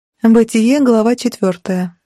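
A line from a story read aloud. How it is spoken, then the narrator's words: Sighed. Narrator (Russian): вздохнула я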